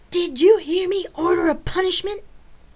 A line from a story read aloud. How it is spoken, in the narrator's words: I screamed at the top of my lungs